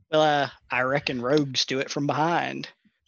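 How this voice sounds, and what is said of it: Put-on Texan accent. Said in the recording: “a Texan accent”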